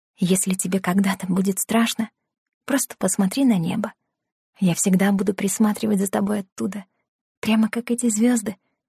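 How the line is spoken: Whisper in the ear. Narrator (Russian): шептала на ухо

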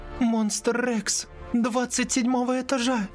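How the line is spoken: Babbling. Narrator (Russian): Пролепетала Лили

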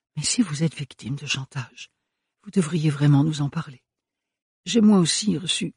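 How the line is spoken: Soft female voice. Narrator (French): dit-elle doucement

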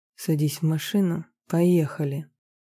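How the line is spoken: Quiet command. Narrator (Russian): приказал негромко

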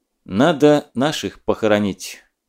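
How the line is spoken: Commander speaking quietly. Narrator (Russian): тихо сказал командир

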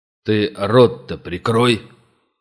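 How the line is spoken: Sudden bark. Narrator (Russian): неожиданно рявкнул на него приор

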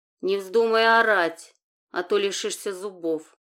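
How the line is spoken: Angry. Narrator (Russian): зло проговорил Валентин

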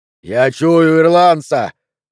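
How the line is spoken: Yelled. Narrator (Russian): заорал Бернардо

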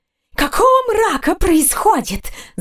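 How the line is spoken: Hiss. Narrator (Russian): зашипела она

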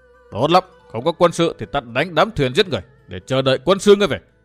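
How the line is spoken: Thunderous shout. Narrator (Vietnamese): Dương Viễn ... hét to như sấm nổ

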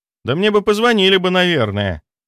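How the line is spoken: Loud. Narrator (Russian): громко произнесла Алена

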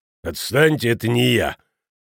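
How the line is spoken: Growl. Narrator (Russian): прорычал

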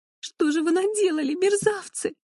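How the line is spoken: Sobbing. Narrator (Russian): всхлипывала

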